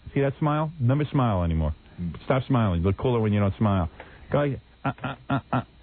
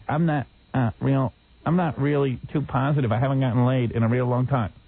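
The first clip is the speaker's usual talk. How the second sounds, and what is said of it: Imitates another person's voice. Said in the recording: “I'm going to do an impression of you”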